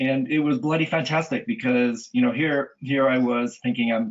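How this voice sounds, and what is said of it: Usual voice. Nothing is said of it.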